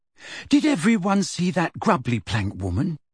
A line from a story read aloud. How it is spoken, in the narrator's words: asked Ginny